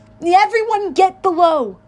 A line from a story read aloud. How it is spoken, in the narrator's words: yelled